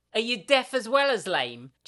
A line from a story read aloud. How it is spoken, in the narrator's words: Jill shouts